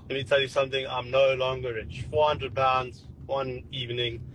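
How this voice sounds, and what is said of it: South African accent. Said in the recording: “You sound like South African. ... Yeah, you sound South African.”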